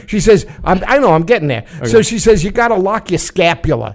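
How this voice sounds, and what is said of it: Put-on New York accent. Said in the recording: “Whose voice are you right now? ... just a random New York guy ... We're still in the New York accent.”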